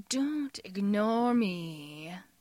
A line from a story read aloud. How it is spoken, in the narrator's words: Jim hisses, voice crazed